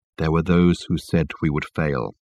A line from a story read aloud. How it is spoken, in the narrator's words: continued Michael, in his low tone that carried clearly under the boisterous noise that filled the carriage